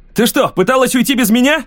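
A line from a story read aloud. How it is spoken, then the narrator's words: Indignant shout. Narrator (Russian): Возмущенно крикнул Лем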